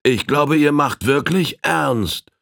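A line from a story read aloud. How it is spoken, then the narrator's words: Child calling out. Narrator (German): rief der Kleine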